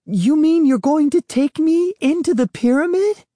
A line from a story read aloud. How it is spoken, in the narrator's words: My voice was so high that only dogs could hear it